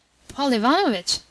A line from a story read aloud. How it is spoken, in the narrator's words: Murazov exclaimed